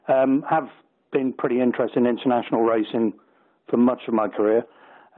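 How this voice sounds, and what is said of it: British accent. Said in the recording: “As you might be able to tell from my accent, I'm British-based”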